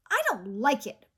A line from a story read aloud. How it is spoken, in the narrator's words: grumbled Chai